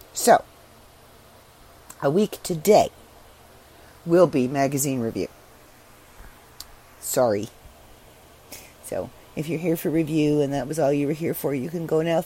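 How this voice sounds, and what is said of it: Strained, unwell-sounding voice. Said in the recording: “my voice isn't really great. I'm not sick. This is allergies.”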